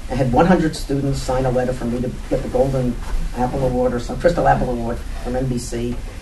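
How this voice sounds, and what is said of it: New York accent. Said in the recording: “28 years of experience in New York, inner city New York, if you haven't learned to that already about my accent”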